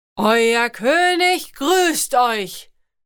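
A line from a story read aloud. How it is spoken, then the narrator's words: Booming servant's voice. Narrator (German): donnerte die Stimme des Dieners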